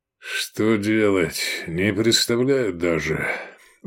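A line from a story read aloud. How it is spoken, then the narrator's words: Tired. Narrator (Russian): устало сказал Негрин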